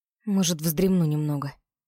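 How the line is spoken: Muttering into the dirt. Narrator (Russian): Буркнула я в грязь

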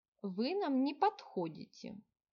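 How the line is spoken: Calm. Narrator (Russian): столь же спокойно сказала ведьма

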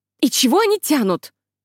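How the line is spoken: Irritated blurt. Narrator (Russian): выпалила раздраженно

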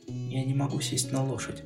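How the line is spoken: Quiet. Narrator (Russian): тихо сказала Дел

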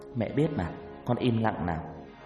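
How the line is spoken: Soft, smiling. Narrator (Vietnamese): Hằng chỉ mỉm cười khẽ nói

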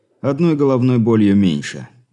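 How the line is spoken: Satisfied snort. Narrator (Russian): удовлетворенно хмыкнул

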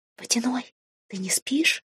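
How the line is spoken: Whispered call. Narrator (Russian): позвала я шепотом

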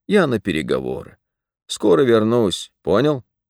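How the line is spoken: Dog's deep bass bark. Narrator (Russian): Собака рявкнула густым басом

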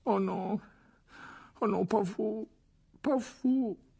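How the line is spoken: Moaning. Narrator (French): gémit-il

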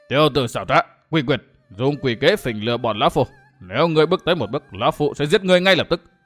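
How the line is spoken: Angry shout. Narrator (Vietnamese): Miêu Sơn nhất quái giận dữ quát

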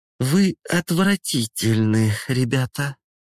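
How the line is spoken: Disgusted mutter. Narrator (Russian): Сморщив свой маленький носик, бормочет

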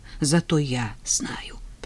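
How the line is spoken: Whispered. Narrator (Russian): прошептала Тина

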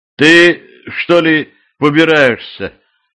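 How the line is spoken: Hesitant question. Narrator (Russian): неуверенно спросил он

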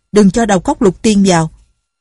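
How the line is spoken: Shout. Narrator (Vietnamese): Tổ Thiên Thu la lên

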